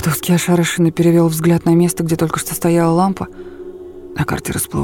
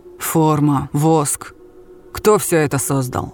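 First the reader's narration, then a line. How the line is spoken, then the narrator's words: Menacing question. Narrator (Russian): спросил Чапаев грозно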